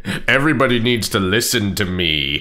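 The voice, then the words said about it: Imitates another person's voice. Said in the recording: “doing my impression of Giles”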